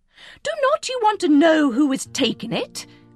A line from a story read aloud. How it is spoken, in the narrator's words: cried his wife impatiently